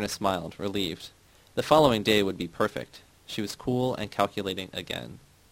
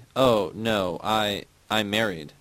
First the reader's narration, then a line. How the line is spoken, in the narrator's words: Myrna said nervously